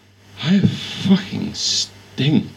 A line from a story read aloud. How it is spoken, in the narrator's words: he slurred